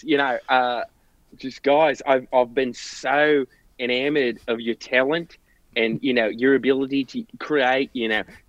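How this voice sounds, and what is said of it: Strong non-American accent. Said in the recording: “that fucking accent ... it'll throw off our American listeners”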